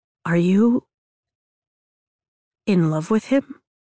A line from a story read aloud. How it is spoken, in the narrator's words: He asks, his voice breaking on the last word